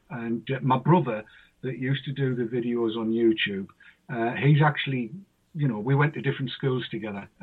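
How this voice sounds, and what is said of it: Northeast English Mackem accent. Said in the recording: “I'm what they call a Mackem because we mac things and we tack things is, is how it came instead of make and take ... mine's a northeastern accent”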